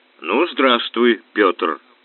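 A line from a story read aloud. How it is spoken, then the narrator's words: Resonant voice. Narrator (Russian): звучным голосом произнес нежданный гость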